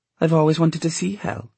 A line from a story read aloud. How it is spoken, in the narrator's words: Cecily said calmly